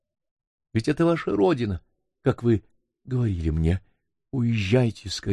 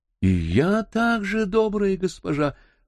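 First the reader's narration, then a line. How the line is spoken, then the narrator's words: Ardent exclamation. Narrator (Russian): жаром воскликнула Фатима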